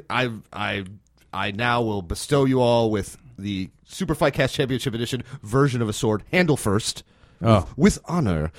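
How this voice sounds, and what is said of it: Star Wars Trade Federation representative voice. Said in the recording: “Thank you for that voice. ... That was one of the Trade Federation representatives from episode one.”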